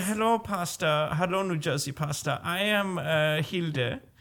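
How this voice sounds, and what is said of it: Put-on German accent, girl character. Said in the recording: “I don't know what this accent is ... let's just say she's German.”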